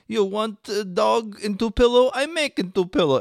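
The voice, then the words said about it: Put-on Russian accent. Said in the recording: “this guy with a Russian accent”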